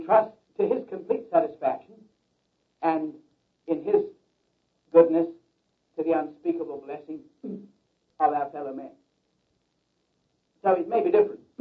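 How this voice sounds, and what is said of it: English accent. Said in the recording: “I speak with a peculiar accent. ... Because I was born in England ... And we all talk that way. ... my peculiar accent”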